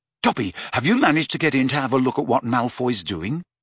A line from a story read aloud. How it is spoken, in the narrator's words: said Harry eagerly